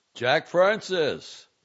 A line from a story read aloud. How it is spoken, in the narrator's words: Valente bellowed